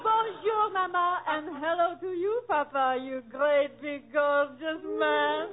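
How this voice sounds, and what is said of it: French accent. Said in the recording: “that French accent”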